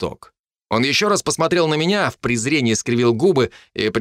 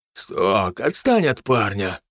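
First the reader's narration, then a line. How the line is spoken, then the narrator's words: Sighing. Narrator (Russian): вздохнул Грег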